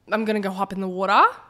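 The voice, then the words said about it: Put-on Australian accent. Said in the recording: “I just love to speak in an accent. And I usually go for Australian ... That's my go-to. I'm not good at it anymore because I haven't done it in a while.”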